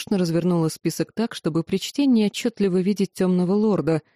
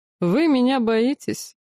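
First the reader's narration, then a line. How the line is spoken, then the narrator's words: Sudden snide question. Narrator (Russian): внезапно ехидно поинтересовался темный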